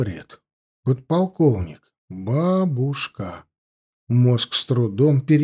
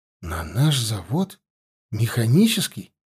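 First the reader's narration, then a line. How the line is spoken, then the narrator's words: Uncertain question. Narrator (Russian): неуверенно переспросил я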